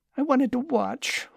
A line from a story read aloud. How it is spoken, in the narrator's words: whined Lucas